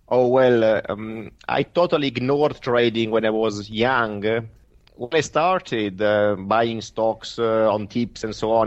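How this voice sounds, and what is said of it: Italian accent. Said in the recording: “Italian accent”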